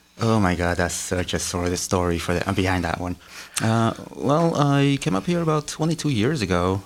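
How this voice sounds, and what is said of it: Slight foreign accent. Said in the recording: “I detect a little bit of an accent”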